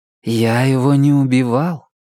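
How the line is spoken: Gentle correction. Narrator (Russian): мягко поправил Ислингтон

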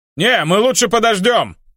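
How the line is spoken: Shouted after someone. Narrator (Russian): крикнул мне вслед Хелфиш

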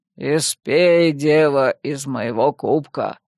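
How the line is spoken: Deep bass voice. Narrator (Russian): пробасил

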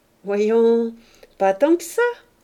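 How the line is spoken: Cheerful. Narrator (French): dit gaiement Octave

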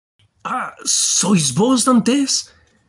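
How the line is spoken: Man exclaiming. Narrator (Spanish): exclamó el hombre

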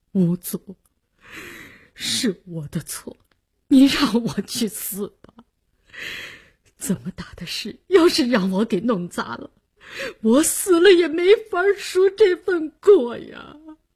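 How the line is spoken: Suppressed sobbing. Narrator (Chinese): 李大公压抑的哭腔

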